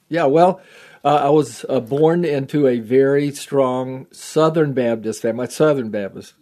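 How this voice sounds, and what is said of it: Texan Southern American accent. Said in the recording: “I am a Texan still. I mean, you don't get that out of your blood. ... People still recognize my accent”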